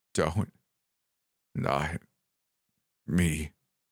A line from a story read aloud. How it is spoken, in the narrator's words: rasped